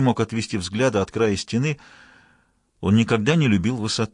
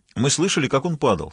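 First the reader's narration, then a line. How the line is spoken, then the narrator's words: Plain. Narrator (Russian): сказал один солдат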